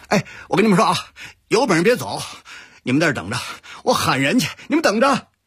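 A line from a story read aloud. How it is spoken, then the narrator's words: Shouting from afar. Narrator (Chinese): 远远地喊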